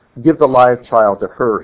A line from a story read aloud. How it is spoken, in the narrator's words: he said